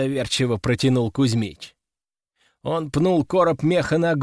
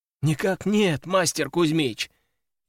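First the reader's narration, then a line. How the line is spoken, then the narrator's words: Frightened bleating. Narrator (Russian): испуганно заблеял Васька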